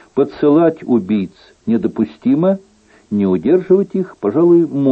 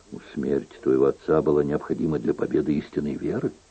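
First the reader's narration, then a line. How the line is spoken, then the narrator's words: Explaining softly. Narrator (Russian): мягко пояснил Генрих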